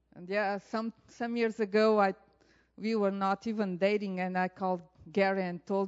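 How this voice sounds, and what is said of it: Portuguese-accented English. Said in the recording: “you are allowed to laugh about my accent ... repeat a word in Portuguese”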